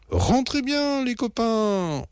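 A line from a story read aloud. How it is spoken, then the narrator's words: Shouted. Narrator (French): hurle-t-il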